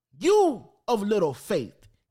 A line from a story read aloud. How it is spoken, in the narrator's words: he said